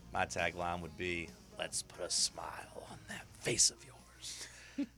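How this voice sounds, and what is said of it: Joker-style villain voice. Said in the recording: “You sounded like the Joker there. ... It's a good impersonation.”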